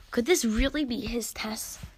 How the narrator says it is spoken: Ephraim sighed

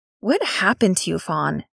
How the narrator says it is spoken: Nix asked softly

